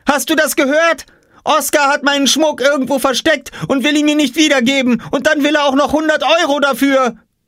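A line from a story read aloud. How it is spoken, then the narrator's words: Shouting. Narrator (German): schrie Jule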